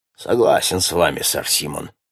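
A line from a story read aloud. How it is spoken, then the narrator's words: Grumbling mutter. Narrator (Russian): пробурчал Фельтон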